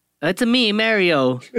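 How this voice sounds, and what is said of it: Spot-on Mario impression. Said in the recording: “your Mario impression ... That's spot on.”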